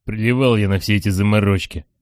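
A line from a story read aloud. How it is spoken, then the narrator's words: Plain. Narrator (Russian): говорит черный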